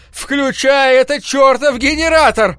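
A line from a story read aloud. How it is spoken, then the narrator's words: Painfully loud yell. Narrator (Russian): заорал я так громко, что заболело в горле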